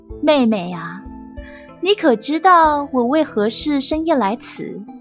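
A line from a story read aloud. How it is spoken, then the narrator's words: Sighing. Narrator (Chinese): 皇后叹了一口气，道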